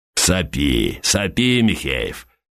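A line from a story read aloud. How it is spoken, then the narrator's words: Condescending bass voice. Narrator (Russian): снисходительным басом произнес Плещей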